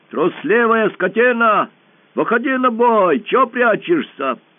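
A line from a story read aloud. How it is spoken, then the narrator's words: Shouting. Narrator (Russian): закричал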